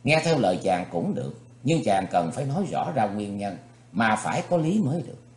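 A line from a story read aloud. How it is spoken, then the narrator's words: Smiling. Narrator (Vietnamese): Thì Khuê Khuê mỉm cười nói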